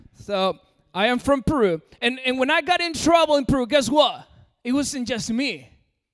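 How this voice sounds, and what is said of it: American accent. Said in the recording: “I know my accent is pretty American”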